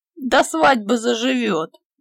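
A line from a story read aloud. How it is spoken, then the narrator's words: Booming laughter. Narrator (Russian): громогласно захохотал Петька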